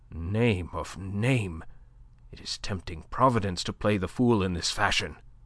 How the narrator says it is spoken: Le Chapelier swore softly, muttering

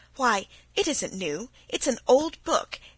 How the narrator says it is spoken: exclaimed Felicity

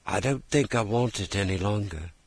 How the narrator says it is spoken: The boy looked up doubtfully at her and murmured

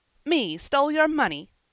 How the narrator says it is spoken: said Jem, angrily

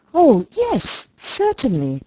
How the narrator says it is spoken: cries Fanny, rising in haste, the haste of embarrassment and of wanting to get away

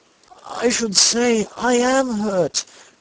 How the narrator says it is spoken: replied Solomon with a groan

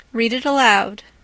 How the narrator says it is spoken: said their father

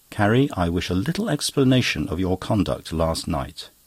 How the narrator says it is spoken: I said, perfectly calmly and quietly

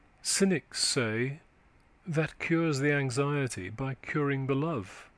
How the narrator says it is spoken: She started, then endeavoured to say calmly

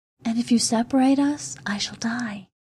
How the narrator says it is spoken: she whispered

